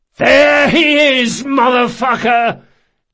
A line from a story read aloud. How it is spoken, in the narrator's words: Locke yelled, spraying blood